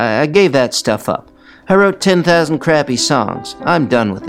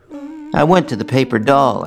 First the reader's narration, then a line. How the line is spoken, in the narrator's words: I said